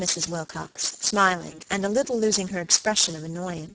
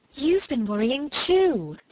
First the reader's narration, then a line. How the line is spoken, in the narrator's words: exclaimed Margaret, getting more and more excited